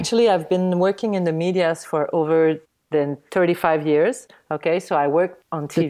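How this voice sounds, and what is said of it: French-Canadian accent. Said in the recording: “they are used to our French-Canadian accent because that's what you hear.”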